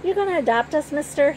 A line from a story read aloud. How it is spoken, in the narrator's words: Henry asks excitedly